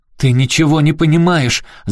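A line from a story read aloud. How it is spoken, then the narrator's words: Shouting through tears. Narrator (Russian): закричала сквозь слезы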